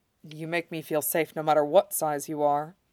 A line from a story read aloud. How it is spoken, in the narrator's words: Shiro replied